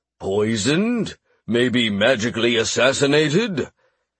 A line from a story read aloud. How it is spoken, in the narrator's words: Rick noted grimly